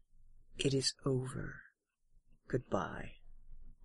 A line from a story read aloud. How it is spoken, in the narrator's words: she quietly says